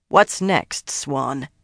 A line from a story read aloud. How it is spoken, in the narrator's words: she growled